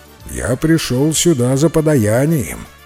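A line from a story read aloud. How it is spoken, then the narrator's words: Plain. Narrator (Russian): ответил ей Алмапша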